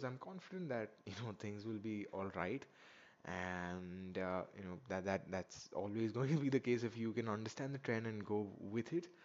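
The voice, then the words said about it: Slower, quieter voice, sore throat. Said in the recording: “I'm a little bit slower today, why my voice is not as loud, it's because my throat is feeling a little bit sore”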